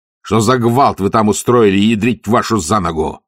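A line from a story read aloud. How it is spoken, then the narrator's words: Barking. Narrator (Russian): рявкнул он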